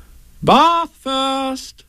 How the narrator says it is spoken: said Kanga in a cheerful voice

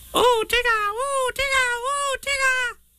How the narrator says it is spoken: squeaked Roo excitedly

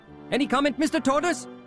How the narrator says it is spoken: shouted all the reporters

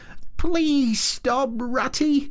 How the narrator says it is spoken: pleaded the poor mole in anguish of heart

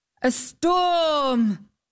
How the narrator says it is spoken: exclaimed the knight

